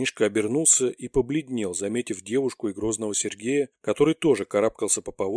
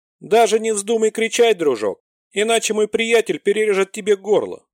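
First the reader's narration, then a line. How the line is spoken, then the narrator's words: Loud. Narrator (Russian): Таха громко сказала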